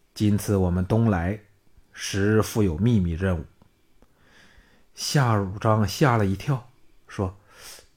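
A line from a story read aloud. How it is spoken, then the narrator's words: Low voice. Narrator (Chinese): 李光低声说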